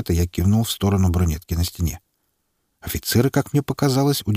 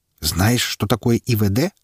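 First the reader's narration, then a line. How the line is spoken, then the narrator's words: Plain. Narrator (Russian): спросил лейтенант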